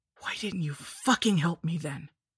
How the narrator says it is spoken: croaked

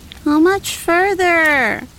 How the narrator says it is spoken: Wolfgang whined

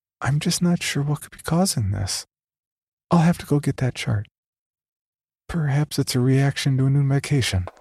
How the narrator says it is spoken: she gave a sigh and said

